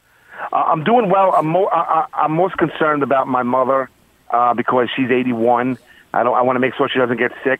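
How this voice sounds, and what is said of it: Queens New York accent. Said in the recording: “I love the Queens accent.”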